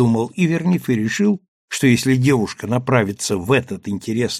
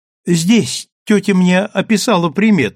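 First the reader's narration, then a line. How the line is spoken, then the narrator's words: Exclaiming girl. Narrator (Russian): воскликнула девушка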